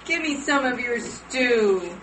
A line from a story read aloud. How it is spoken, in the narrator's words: Esau whined